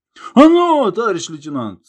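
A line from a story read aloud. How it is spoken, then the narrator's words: Old man yelling. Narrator (Russian): завопил дед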